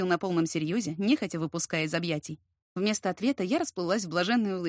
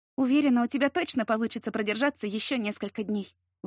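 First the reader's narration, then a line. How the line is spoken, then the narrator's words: Soft breathed words. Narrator (Russian): выдохнула я в теплые приоткрытые губы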